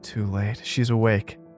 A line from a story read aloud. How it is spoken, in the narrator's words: the girl cried